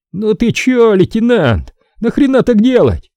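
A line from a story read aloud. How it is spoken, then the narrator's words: Shouting. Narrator (Russian): закричал на взводного Хасан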